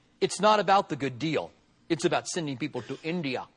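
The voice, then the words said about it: Imitated Indian accent. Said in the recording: “he said to me in an Indian accent”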